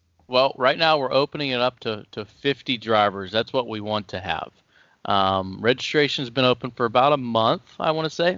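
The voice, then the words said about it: Southern US accent. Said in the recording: “where's your family from in the South? ... Kentucky ... In the hills. ... maybe that's where that accent's coming from then.”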